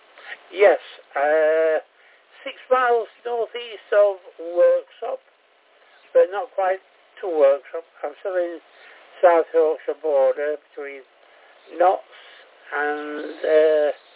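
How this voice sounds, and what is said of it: Yorkshire accent. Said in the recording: “That sounds like a Yorkshire accent to me.”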